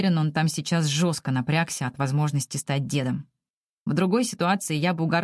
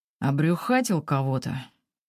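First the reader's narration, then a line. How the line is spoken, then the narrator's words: Throat-clearing, even tone. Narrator (Russian): Прочищает горло, уточняя ровным тоном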